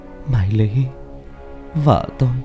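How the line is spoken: Soft dreamy cry. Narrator (Vietnamese): Bảo tưởng chừng như trong giấc mơ, anh kêu lên khe khẽ

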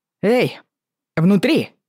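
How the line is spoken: Confident shout. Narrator (Russian): крикнул он, как можно увереннее

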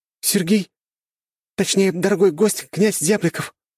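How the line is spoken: Exclaimed. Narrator (Russian): воскликнула официантка по имени Даша

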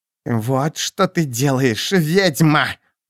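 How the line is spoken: Hoarse rasp. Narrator (Russian): прохрипела она

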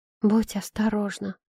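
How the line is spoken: Secretive whisper. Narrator (Russian): прошептала она так, чтобы Майло не мог услышать

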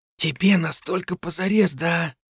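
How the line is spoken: Whispered question. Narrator (Russian): шепотом поинтересовался он

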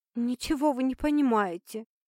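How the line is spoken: Indignant, sobbing. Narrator (Russian): Возмутилась Геля и разрыдалась

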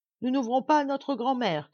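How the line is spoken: Child shouting. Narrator (French): crie l'aîné des petits

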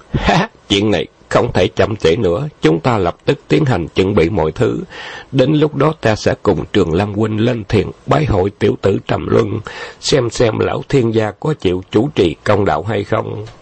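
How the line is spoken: Laughing loudly. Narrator (Vietnamese): Khâu Trọng cười lớn

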